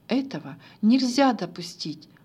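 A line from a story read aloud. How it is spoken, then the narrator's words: Two assistants exclaiming. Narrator (Russian): воскликнули оба помощника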